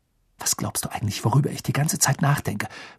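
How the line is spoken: Worried whisper. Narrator (German): flüsterte sie mit großen, sorgenvollen Augen

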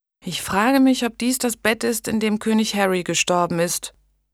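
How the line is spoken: Sleepy murmur. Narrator (German): murmelte Blanche schläfrig

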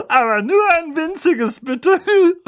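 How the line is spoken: Giggling. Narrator (German): kicherte sie

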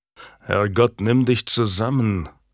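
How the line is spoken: Growling. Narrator (German): knurrte Warwick

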